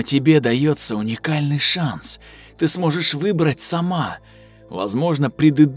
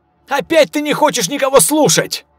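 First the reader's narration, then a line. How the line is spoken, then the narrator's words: Shouted. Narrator (Russian): закричал один из патрульных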